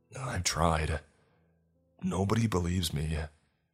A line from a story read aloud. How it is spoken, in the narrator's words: he said, his voice getting shaky